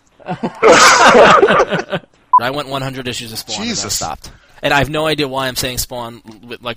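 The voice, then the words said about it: Strong Long Island accent. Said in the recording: “my Long Island accent is coming out so strong with that”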